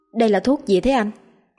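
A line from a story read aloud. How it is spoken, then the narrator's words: Fearful trembling question. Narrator (Vietnamese): Tay cô ta run run sợ hãi và hỏi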